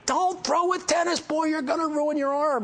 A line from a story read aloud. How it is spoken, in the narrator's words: he starts yelling at me